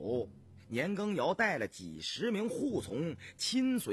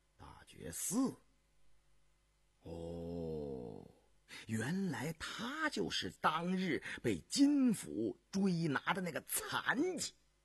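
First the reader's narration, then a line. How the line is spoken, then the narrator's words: Murmuring. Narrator (Chinese): 田文静喃喃地说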